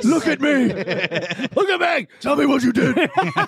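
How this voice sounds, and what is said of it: Evil Batman-style voice. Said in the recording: “It's Batman as like an evil voice.”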